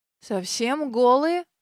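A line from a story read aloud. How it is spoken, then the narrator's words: Hoarse mutter. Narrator (Russian): сиплым голосом пробормотал Терренс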